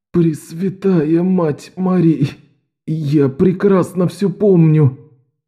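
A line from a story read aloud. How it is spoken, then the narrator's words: Groaning. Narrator (Russian): простонал Беннон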